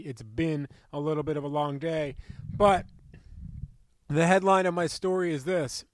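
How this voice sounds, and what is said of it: Slightly raspy voice. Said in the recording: “Sorry if my voice is a little bit raspy.”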